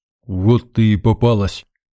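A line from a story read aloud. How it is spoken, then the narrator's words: Barked, disguised voice. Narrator (Russian): рявкнул, чуть изменив голос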